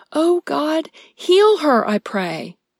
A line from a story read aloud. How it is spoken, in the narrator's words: Moses cried out to the Lord, saying